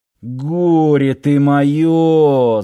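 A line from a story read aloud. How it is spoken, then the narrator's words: Groaning. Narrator (Russian): застонал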